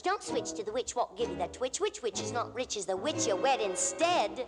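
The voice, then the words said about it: Sung with a put-on British accent. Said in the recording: “still with a British accent ... The British accent's back and it's worse than ever.”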